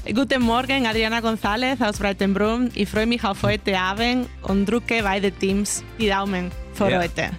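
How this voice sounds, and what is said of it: Speaks in a charming regional dialect. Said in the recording (German): “Das hört man auch fast nicht raus. Aber entzückender Dialekt”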